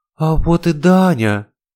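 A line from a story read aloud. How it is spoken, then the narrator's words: Joyful exclamation. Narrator (Russian): радостно воскликнула она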